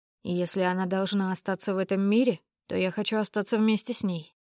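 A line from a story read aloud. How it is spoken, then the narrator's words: Hoarse, strained voice. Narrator (Russian): произнес Язон севшим голосом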